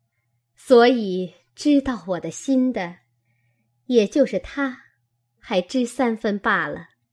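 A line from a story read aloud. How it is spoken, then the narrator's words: Laughing. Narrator (Chinese): 凤姐笑道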